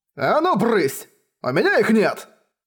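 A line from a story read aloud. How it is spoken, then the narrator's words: Roaring. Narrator (Russian): взревел Кэй Юньхай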